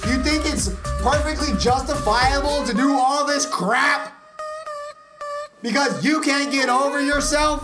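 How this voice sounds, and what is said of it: Raised, angry voice. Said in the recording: “raising my voice”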